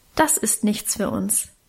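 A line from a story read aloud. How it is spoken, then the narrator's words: Plain. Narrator (German): sagte er wieder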